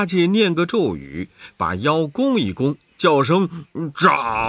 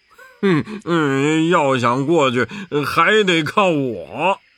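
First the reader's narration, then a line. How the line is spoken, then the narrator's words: Laughing. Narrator (Chinese): 八戒笑道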